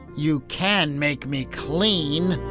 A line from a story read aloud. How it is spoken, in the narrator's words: sneered